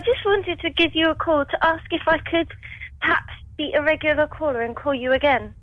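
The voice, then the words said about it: Southern English accent. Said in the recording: “I like the sound of you. Where's that accent from? ... I'm from Bracknell, down south. ... you have a nice accent”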